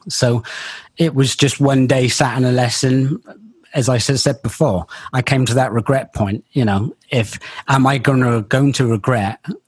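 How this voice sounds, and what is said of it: Bristol accent. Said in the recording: “my Bristol accent comes out every now and again ... it just does come out occasionally”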